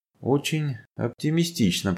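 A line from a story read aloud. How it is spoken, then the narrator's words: Muttered. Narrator (Russian): пробормотал Иван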